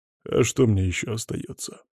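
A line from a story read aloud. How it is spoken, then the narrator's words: Grumbling. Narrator (Russian): проворчал Сажин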